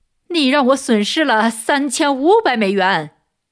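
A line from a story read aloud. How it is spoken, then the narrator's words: Loud shout. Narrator (Chinese): 这位经纪人大声叫道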